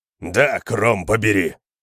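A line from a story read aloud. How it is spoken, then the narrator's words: Growled. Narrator (Russian): прорычал кемериец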